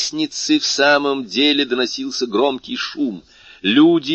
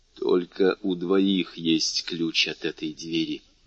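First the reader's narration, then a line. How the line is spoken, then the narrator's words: Whispered. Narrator (Russian): прошептал Моррель у Коклеса и Жюли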